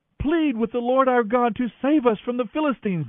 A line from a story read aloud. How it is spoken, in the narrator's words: they begged Samuel